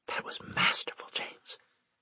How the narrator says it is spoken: she said in a whisper

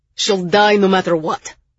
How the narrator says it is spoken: Zell barked

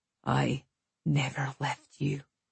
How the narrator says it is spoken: he whispered across my lips

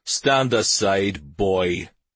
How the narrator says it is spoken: the leader said in a contemptuous tone

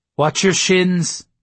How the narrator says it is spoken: someone called out

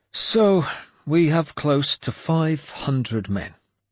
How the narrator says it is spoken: he said gloomily

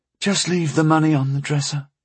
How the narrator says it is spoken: she said dreamily

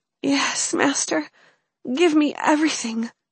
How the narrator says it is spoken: she murmured

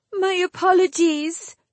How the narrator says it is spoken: Cluna broke in with a wail

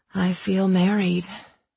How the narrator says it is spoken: I murmured

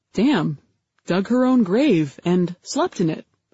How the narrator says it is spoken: I replied

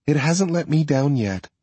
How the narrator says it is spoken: she says in a wistful sort of tone

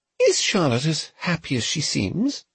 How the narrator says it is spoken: Her Grace murmured

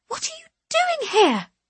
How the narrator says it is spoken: she hisses

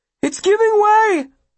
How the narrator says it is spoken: Will cries, seeing the snow's surface pucker all around

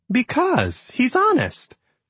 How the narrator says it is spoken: Mighty said with a laugh

